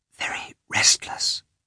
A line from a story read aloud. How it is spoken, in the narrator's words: said the head nurse in a whisper